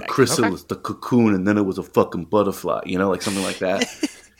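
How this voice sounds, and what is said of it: Character impression with Queens-like accent. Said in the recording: “That was a really good Dom impression ... It was a great voice. I don't think it would sound anything like Dom ... That sounded like Dom if Dom was raised in Queens.”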